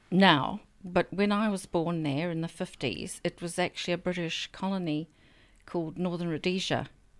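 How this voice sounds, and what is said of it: Non-New Zealand accent. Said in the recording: “does not have a New Zealand accent”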